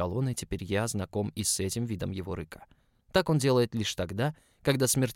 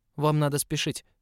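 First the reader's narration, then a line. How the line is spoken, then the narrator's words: Rather sharp. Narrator (Russian): сказал довольно резко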